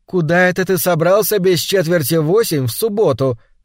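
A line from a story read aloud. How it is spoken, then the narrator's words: Cheerful laughing shout. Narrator (Russian): крикнула она, весело засмеявшись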